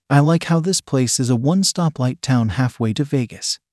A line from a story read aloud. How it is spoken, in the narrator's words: I said